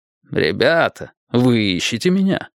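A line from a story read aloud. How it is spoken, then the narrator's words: Laughing. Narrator (Russian): Джонсон рассмеялся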